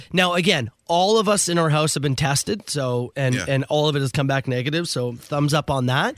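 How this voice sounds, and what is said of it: Raspy, hoarse voice. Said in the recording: “you're a little raspy ... I lost my voice ... I completely lost my voice”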